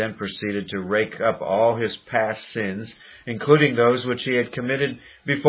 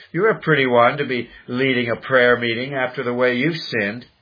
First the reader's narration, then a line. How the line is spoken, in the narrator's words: his wife cried out